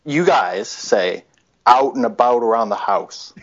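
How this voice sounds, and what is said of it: Put-on American accent. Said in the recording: “do an imitation of us stupid Americans ... Now that sounded like it took a lot of facial contortion for you to say it”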